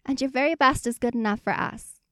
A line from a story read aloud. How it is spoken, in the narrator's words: he exclaims